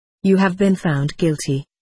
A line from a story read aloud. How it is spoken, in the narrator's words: he said